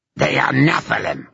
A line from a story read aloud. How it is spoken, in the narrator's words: spat Itarlum